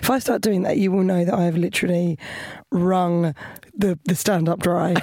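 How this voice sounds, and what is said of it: Worn-out, hoarse voice. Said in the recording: “It's not very good today because my voice is gone.”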